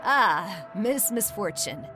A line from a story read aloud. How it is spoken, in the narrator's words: he chuckled